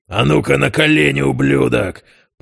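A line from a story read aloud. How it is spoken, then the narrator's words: Assistant growling. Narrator (Russian): прорычал один из помощников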